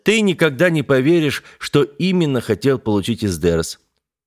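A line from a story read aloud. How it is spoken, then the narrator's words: Cheerful. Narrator (Russian): весело произнес Ясень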